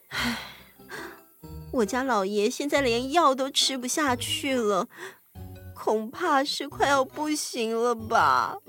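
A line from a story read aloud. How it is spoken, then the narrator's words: Gloomy sighing. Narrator (Chinese): 他愁眉苦脸的样子，唉声叹气地说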